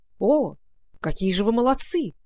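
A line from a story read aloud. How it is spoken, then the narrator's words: Exclaiming. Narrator (Russian): воскликнул яшмовый рыцарь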